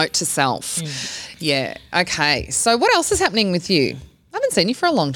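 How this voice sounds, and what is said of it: Usual voice. Nothing is said of it.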